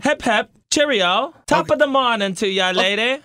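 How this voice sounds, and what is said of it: Put-on British accent. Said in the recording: “use like British slang ... this accent”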